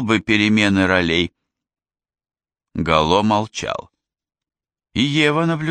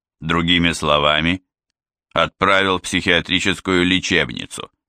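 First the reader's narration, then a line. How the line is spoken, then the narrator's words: Grumbling. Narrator (Russian): проворчал Гало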